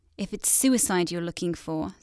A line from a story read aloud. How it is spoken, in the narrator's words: Sathian murmured